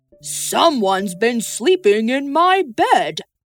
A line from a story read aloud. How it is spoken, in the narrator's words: grumbled Father Bear